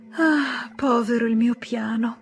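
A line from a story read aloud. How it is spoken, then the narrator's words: Sighing. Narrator (Italian): sospirava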